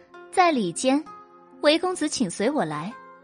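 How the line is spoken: Laughing. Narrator (Chinese): 白姬笑道

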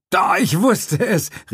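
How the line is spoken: Calling out. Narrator (German): rief er

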